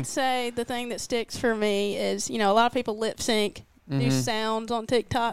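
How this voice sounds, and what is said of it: Speaks with a distinctive regional accent. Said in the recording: “people just love my accent, and that's, a lot of people say it's fake”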